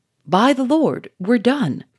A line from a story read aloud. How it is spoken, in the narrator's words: cried Charolais